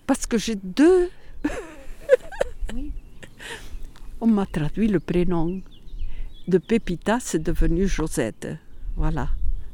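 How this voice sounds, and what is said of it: Catalan accent in French. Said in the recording (French): “Mon accent, mais j'ai un accent. C'est l'accent catalan.”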